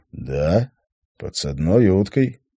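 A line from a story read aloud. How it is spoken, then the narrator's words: Calm agreement. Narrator (Russian): спокойно согласился Ашсей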